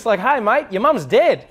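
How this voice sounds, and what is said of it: Put-on upbeat Australian accent. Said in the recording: “oh, I'm Australian for the day ... the great thing about an Australian accent is that you always sound happy because always, like, it doesn't matter what it is, but it always goes up and it's like really exciting ... even if an Australian gave you bad news, it always sounds good”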